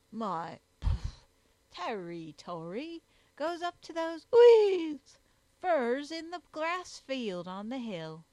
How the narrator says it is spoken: replied Jogglebury pompously

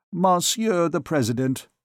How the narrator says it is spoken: replied the advocate

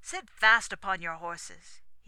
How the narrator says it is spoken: cried at parting

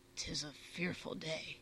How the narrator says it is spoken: Bungie muttered

